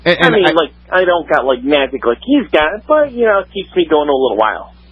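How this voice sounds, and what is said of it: Comic put-on regional accent. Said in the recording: “your accent. It's not ... North Polean accent ... Very, very North Polean”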